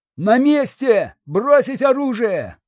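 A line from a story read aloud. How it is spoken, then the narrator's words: Shout. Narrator (Russian): закричал второй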